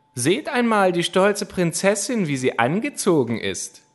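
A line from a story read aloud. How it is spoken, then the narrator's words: Mocking laughing shouts. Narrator (German): riefen sie, lachten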